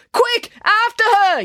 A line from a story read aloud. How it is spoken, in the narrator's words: yelled April